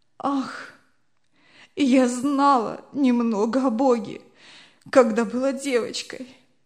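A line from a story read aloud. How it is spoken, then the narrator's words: Sobbing, wretched. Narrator (Russian): отвечала несчастная, рыдая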